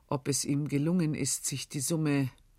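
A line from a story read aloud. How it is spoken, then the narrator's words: Hesitant. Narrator (German): begann Tugut zögernd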